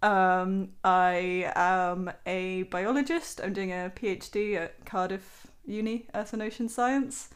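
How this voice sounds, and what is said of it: Generic Southern English accent. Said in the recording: “By my very suppressed accent that I've just replaced with generic Southern.”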